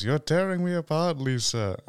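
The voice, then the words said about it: Weak Tommy Wiseau impression, odd accent. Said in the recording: “I'm not good at doing Wiseau's impression. He's got this really, really weird accent that I just cannot place ... it's like a weird mix of French, German”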